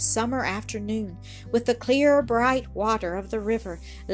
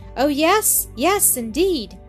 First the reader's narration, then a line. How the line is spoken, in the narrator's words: cried Annis, with delight